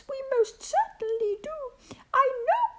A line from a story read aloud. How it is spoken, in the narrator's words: piped the voice